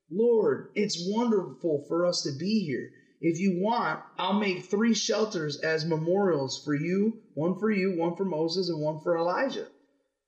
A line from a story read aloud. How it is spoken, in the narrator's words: Peter exclaimed